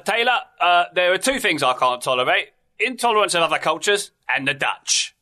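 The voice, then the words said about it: Michael Caine impression. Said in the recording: “I just wanted to do my Michael Caine impression... I feel better about that impression because I knew it was Michael Caine. Well done”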